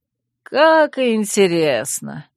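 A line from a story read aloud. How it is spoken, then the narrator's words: Sarcastic drawl. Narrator (Russian): саркастично протянул Урвук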